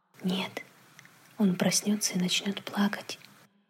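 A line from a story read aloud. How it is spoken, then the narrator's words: Quiet father's reply. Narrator (Russian): так же тихо ответил отец Дэви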